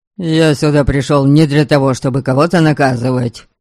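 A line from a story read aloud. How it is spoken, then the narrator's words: Angry. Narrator (Russian): Сердито продолжал Вестмар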